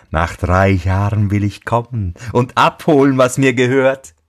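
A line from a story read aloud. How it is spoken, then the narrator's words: Scornful laugh. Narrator (German): lachte höhnisch und sagte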